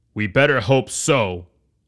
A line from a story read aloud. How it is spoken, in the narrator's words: Horace growled